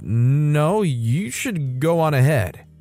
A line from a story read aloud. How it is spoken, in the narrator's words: He stuttered out